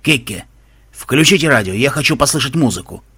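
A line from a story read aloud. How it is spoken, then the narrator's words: Distracted grumble. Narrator (Russian): буркнул Рохас, желая отвлечься от груза неприятных мыслей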